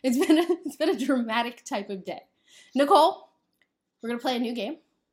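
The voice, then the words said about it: Dramatic game show host voice. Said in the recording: “I get to have my dramatic game show voice twice, but I'm going to be a little less dramatic”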